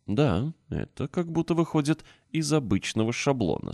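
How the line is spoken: Calm. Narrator (Russian): спокойно заметил

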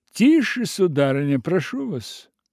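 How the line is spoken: Loud, commanding. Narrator (Russian): Громко и властно сказал крупье

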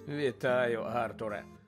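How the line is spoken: Tired. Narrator (Ukrainian): втомлено озвався Безіл

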